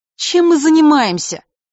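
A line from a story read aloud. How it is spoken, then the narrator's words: Sudden indignant exclamation. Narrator (Russian): внезапно возмущенно восклицает Джулия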